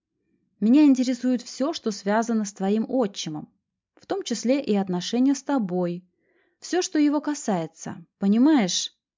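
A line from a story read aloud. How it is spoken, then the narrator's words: Patient, almost tender. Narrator (Russian): терпеливо продолжила я почти ласковым голосом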